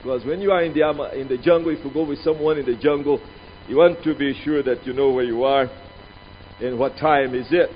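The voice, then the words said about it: Accented non-native English speech. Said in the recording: “so that you understand my accent”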